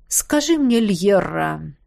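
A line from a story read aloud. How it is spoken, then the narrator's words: Menacingly soft. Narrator (Russian): угрожающе мягко начал Кхаанри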